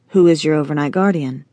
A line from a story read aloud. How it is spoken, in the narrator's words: Jeremiah asked